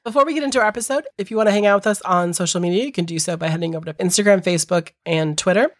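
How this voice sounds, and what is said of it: Sick-sounding voice. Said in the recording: “I'm still a little sick ... I'm not 100%, so if you hear it in my voice, this is not what my voice normally sounds like.”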